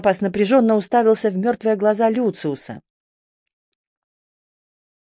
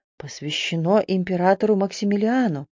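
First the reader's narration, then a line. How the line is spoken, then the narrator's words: Muttered under breath. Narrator (Russian): Пробормотал он себе под нос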